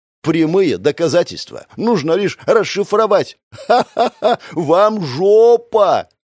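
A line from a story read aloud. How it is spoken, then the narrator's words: Mocking laughter. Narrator (Russian): засмеялся прямо в лицо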